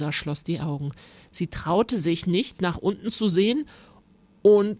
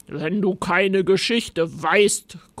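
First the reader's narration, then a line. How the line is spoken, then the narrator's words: Grunting monster. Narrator (German): grunzte das Monster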